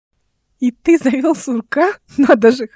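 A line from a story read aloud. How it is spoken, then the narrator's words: Laughing loudly. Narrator (Russian): хохотала Ольга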